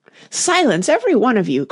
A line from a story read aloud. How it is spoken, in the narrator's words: cried the Tiger Lily, trembling with excitement